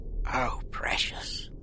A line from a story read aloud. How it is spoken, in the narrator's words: she whispered